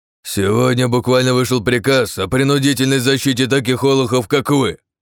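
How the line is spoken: Major yelling. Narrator (Russian): уже орал майор

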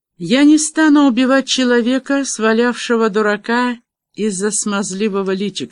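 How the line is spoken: Plain. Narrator (Russian): сказал Девлин

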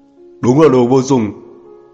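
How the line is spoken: Angry roar. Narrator (Vietnamese): một tiếng gầm giận dữ

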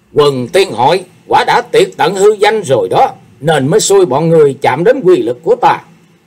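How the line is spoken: Murderous demonic roar. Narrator (Vietnamese): Sát khí dâng tràn, Thế Hùng gầm lên như quỷ độc ở trang mộ

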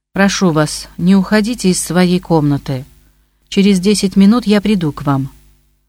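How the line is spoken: Calm. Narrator (Russian): Она сказала спокойно

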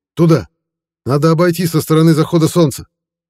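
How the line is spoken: Sudden shout. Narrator (Russian): Вдруг пленный крикнул

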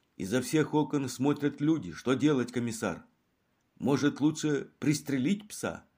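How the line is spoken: Doctor asking timidly. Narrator (Russian): Свинцово-бледный доктор робко спрашивал

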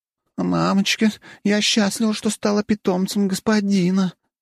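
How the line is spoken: Moaning. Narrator (Russian): простонала Блэр

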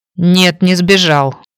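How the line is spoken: Angry mutter. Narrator (Russian): сердито буркнула Наташка

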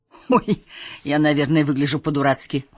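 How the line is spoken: Chuckling. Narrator (Russian): он хохотнул

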